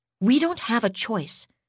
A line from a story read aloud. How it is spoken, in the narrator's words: said harshly